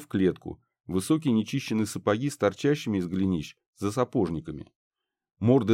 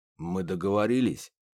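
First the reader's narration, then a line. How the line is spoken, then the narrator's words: Hoarse, confident. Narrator (Russian): прозвучал хриплый, уверенный голос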